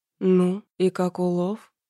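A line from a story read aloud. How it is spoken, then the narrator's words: Slightly hoarse voice. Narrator (Russian): В голосе Таранова послышались первые хриплые нотки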